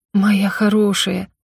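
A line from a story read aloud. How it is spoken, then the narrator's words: Trembling voice. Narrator (Russian): дрожащим голосом проговорила я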